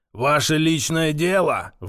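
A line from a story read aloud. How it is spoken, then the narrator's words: Sudden roar. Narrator (Russian): вдруг взревел Павел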